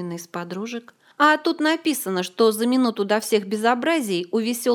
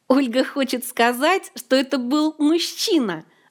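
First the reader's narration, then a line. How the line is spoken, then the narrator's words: Gleeful interrupting jester. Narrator (Russian): радостно перебил королеву непочтительный шут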